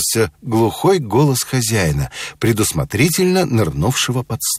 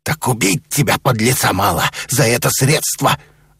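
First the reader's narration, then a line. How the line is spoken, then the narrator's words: Growling. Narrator (Russian): зарычал посетитель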